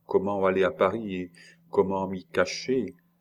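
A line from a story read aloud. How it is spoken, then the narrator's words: Sighing. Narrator (French): Julie demanda en soupirant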